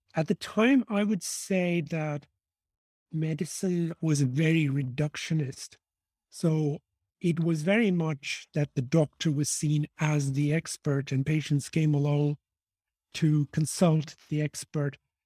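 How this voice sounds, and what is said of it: Irish accent. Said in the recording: “I was raised in Dublin, which is why I have this funny accent for an Indian man”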